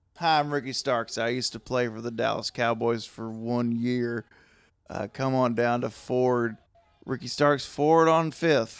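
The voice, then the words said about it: Put-on southern accent. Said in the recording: “Ricky Starks has a southern accent now.”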